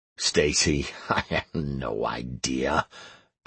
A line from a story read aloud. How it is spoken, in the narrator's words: I muttered at a loss